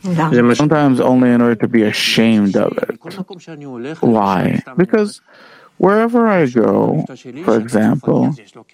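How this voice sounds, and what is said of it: French accent. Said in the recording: “they hear my accent. Ah, he's French”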